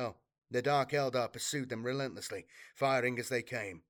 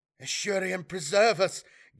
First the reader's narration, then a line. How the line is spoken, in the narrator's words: gasped Melisha, a female steersman, staring in revulsion